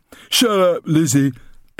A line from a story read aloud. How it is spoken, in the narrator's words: barked Milo